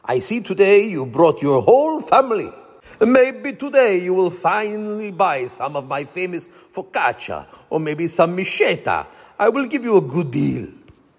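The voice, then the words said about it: Heavy Italian accent. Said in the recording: “he called in a heavy Italian accent”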